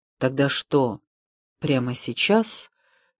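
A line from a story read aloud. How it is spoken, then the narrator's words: Quiet question. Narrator (Russian): тихо спросил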